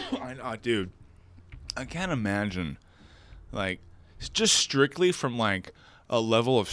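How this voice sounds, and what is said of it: Usual voice. Nothing is said of it.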